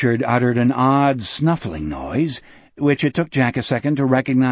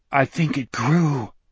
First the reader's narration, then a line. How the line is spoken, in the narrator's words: Richard breathed